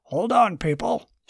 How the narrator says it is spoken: shouted Tyler

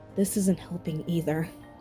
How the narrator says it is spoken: she said quietly to herself

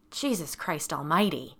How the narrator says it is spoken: spat

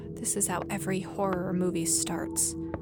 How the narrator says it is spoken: muttering under her breath

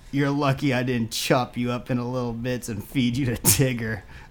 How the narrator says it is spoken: laughed Pooh maniacally

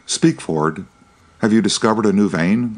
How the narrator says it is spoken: cried the engineer, unable to contain himself

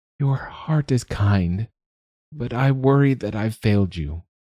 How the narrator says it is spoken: Basu sighed

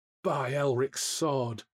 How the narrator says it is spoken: Jari groaned

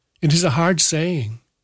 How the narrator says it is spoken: Samuel cried

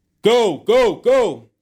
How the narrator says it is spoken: the tall shooter yelled

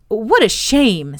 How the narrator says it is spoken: said Pelham hotly

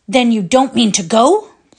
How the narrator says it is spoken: Lentilov was saying angrily

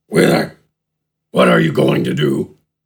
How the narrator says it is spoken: Gafgarn asked in a grumble

